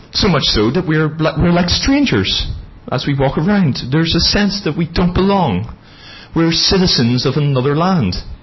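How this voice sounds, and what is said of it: Non-local foreign accent. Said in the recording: “my charming accent. It doesn't sound quite local.”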